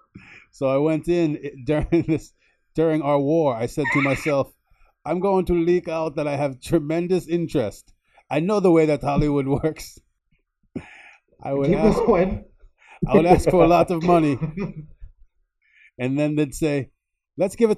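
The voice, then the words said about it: Arnold Schwarzenegger impression. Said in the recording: “read it in an Arnold Schwarzenegger voice? ... Twist my arm, I will.”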